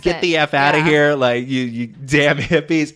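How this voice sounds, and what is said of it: Put-on southern accent. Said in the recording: “he's like, southern accent”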